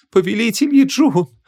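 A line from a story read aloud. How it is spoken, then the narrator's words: Sobbing voice. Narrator (Russian): рыдающий голос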